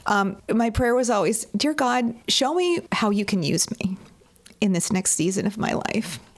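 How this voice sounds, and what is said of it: Choked-up, emotional voice. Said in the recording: “I'm going to get a little choked up here.”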